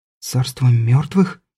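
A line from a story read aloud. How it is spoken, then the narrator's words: Frightened whisper. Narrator (Russian): испуганно шепнула Соня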